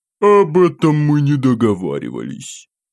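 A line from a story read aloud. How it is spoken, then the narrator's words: Snide, mocking laughter. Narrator (Russian): Ехидным голосом расхохотался этот засранец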